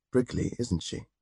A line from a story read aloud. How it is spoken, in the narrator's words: murmured